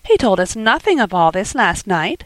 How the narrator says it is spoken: said she, laughing

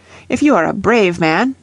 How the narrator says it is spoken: they cried

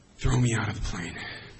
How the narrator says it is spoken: breathed out in one breath

